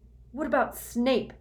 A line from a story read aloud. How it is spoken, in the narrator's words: Harry spat